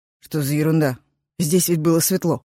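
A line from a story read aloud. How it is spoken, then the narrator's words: Muttering. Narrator (Russian): пробормотал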